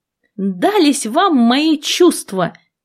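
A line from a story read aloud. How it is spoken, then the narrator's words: Shouted. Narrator (Russian): крикнула я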